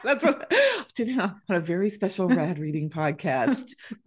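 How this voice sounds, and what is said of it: DJ-style announcer voice. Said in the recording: “You sounded like a DJ”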